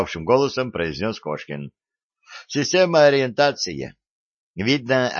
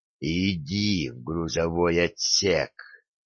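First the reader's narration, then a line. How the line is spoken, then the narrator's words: Hissing whisper. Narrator (Russian): свистящим шепотом сказал он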